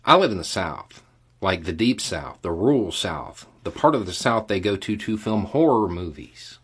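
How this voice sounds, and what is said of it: Southern US accent. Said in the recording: “Do not let my accent fool you.”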